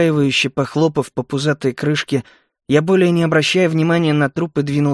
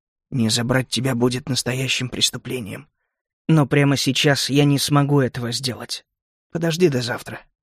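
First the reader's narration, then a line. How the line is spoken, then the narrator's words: Trembling whisper. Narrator (Russian): я прошептал дрожащим голосом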